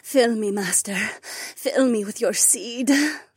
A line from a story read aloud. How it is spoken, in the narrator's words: gasped